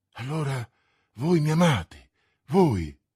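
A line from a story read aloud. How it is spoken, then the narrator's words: Exclaimed. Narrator (Italian): esclamò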